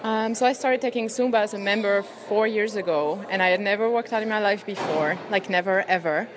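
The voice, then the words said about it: French accent. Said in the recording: “amongst the French accent, yes, ... is French”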